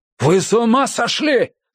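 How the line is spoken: Yelling. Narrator (Russian): заорал Феннинг

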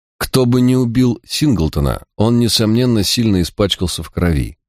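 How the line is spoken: Plain. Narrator (Russian): сказал я

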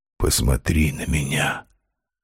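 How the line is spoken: Whispered request. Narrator (Russian): попросил он шепотом

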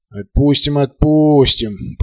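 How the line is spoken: Grumbled with faint smile. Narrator (Russian): проворчал президент купола с бледной улыбкой

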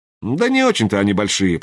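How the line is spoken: Grumbling. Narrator (Russian): проворчал Суваев

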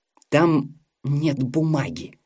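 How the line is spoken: Hissed. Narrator (Russian): прошипела его жена

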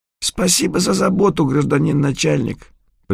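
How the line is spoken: Hoarse wheeze. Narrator (Russian): просипел кто-то из чертей

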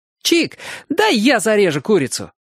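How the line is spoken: Joyful shout. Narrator (Russian): радостно крикнул Оник

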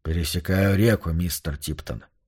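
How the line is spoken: Indifferent voice. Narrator (Russian): равнодушным голосом отозвался Йорк

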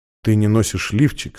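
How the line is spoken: Quiet. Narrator (Russian): сказал он тихо

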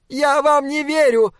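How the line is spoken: Machine screaming. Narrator (Russian): завопила машина

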